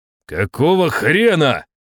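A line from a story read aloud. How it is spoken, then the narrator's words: Shout. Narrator (Russian): крикнул я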